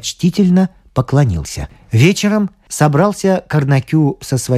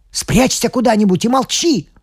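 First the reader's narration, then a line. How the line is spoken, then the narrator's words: Shout. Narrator (Russian): крикнул Карнакю жене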